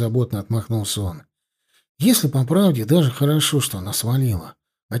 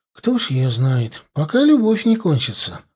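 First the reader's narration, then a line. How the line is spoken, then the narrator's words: Sighing. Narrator (Russian): вздохнул Славка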